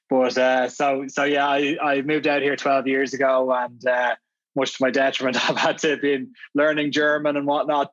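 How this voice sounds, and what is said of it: Irish accent. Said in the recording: “I'm clearly not Austrian with this accent. I grew up in Dublin.”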